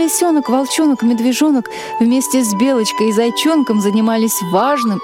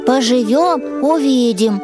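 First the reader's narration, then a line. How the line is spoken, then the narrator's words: Grumbling bear cub. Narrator (Russian): проворчал медвежонок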